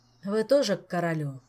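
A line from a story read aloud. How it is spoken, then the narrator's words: Tired, restrained irritation. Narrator (Russian): устало спросил Кантор, еле сдерживаясь, чтобы не нахамить даме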